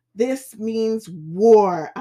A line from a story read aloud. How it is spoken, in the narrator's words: shout